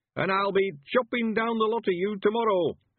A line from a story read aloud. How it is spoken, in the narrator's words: shouted triumphantly